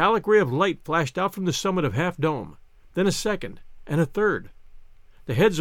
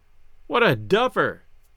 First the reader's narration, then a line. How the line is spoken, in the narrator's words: Gus cried